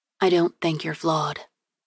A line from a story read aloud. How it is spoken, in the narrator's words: she said quietly